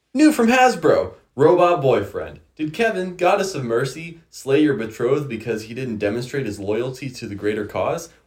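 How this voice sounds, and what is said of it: Exaggerated announcer voice. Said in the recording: “read it in your best announcer voice that you can think of.”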